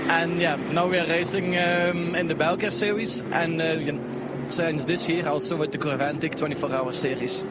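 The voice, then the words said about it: Flemish Belgian accent, throaty rolled sounds. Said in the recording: “Now that is an epic accent. That is fully Dutch-Belgian, isn't it? ... with the kind of the rolling of the back of the throat that only the Dutch and the Belgian Flemish can do ... it's a Flemish bit. Yeah, literally Flemish.”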